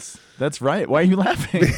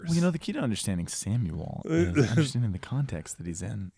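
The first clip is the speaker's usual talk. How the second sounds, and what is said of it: Mock NPR radio announcer voice. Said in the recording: “That's my NPR voice. ... Yeah, NPR.”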